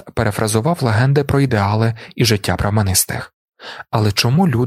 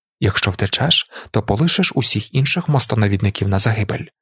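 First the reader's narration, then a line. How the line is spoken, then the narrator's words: Inner voice whisper. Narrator (Ukrainian): прошепотів голос усередині нього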